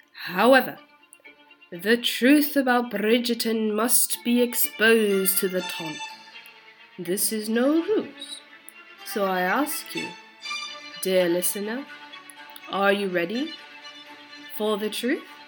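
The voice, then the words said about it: Fake British accent. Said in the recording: “the fake British accent”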